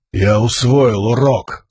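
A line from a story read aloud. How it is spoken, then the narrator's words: Growl. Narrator (Russian): зарычал Каладин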